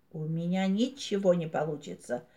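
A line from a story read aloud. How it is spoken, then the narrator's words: Sad. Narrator (Russian): грустно проговорил Шмяк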